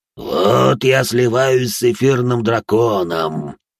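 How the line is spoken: Monster growling. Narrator (Russian): прорычало чудище

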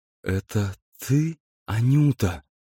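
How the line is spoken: Languid and joyful. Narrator (Russian): сказал он томным и вместе радостным голосом

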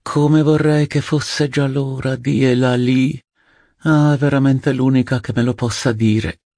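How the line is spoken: Aunt's sigh. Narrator (Italian): sospirava la zia

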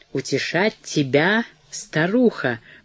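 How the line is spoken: Drawled. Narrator (Russian): протянул он

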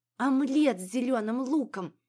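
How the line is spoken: Dreamy exhale. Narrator (Russian): мечтательно выдохнул Витер

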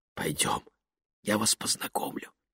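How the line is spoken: Whisper against lips. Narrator (Russian): прошептала Лени, не отрываясь от его губ

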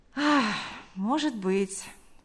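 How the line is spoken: Sighing. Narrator (Russian): вздохнув, сказал он

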